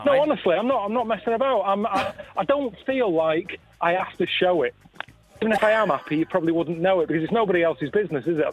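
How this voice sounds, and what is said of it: Northern English accent. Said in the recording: “I've got a northern accent, so I think that just anyone who's not from where I'm from always thinks I'm a bit miserable”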